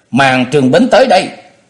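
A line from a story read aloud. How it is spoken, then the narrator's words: Annoyed shout. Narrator (Vietnamese): có chút ảo não, quay đầu lại quát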